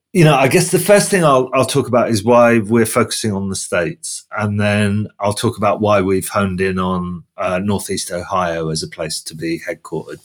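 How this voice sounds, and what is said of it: British accent. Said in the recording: “I'm from the UK just by my accent”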